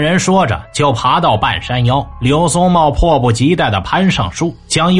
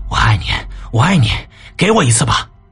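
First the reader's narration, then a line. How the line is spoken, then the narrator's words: Panting heavily. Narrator (Chinese): 刘松茂嘴里喘着粗气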